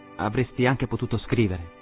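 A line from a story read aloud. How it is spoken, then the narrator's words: Plain. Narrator (Italian): disse Katrina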